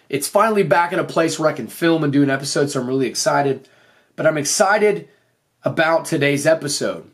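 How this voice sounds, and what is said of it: Voice still off after laryngitis. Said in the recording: “I completely lost my voice. My voice was shot. ... my voice is kind of off this week”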